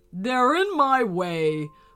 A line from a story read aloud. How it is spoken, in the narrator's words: boomed the dragon